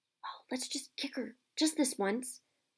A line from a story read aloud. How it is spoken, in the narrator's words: Ron whispered in Harry's ear